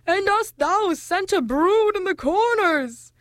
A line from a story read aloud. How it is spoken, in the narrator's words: howled the bogles